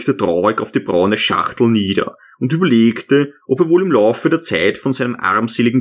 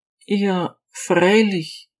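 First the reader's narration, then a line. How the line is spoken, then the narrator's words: Regretful sigh. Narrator (German): seufzte Anna bedauernd auf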